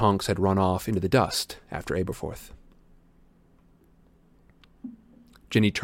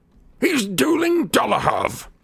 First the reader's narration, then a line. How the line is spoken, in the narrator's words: shouted Aberhorf